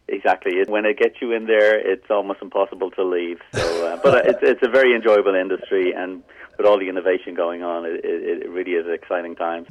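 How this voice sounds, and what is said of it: Slight Irish accent. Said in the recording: “I hear just a twinge of an accent. You actually grew up in Ireland, right? ... you will still hear that Irish brogue”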